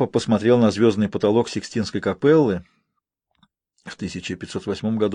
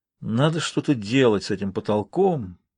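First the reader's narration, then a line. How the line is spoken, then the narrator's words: Muttering. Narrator (Russian): пробормотал он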